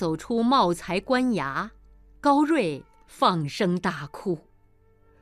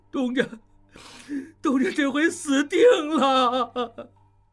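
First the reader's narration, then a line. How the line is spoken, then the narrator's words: Crying. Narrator (Chinese): 高瑞哭道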